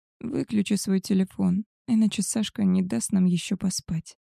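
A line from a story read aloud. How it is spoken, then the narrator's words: Sleepy whisper. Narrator (Russian): сонно прошептала Малинка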